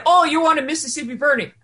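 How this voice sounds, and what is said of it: Bad put-on Irish accent. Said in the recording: “That was horrible Irish accent. I'm terrible at that.”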